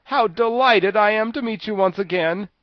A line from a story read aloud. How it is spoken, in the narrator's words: cried the Tin Woodman joyfully